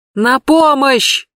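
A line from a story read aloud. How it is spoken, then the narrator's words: Hysterical woman screaming, behind wall. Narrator (Russian): истерически кричала какая-то женщина за стеной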